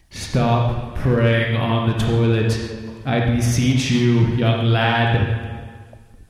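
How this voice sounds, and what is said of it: Deep voice playing God. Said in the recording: “In a deep voice.”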